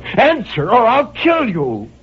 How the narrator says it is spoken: And I cried out

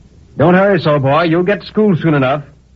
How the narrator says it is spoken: the blacksmith cried to me

